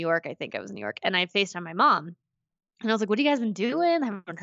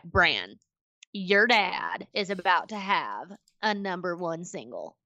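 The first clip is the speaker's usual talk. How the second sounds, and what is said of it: Imitates another person's voice. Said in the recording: “your Tish impersonation is the best thing I've ever heard”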